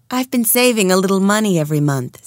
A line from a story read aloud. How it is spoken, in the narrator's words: said Mrs